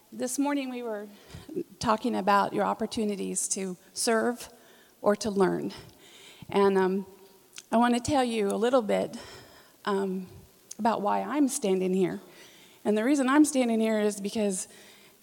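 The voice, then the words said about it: Voice affected by a cold. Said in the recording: “I have a little bit of a cold, so I have a cough drop in my mouth.”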